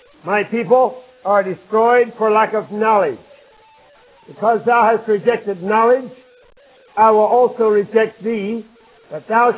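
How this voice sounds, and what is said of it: Voice audibly not normal, impaired. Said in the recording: “My voice isn't quite normal this morning, as you can hear”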